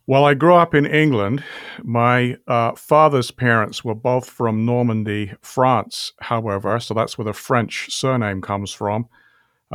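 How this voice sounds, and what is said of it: British accent. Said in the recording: “you have kind of an accent ... you have a British accent”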